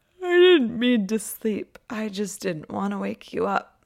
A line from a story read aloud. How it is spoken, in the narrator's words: Around a yawn, she explains